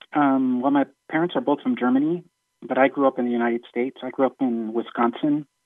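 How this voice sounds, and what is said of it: Slight foreign-sounding accent. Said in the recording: “you have a bit of an accent”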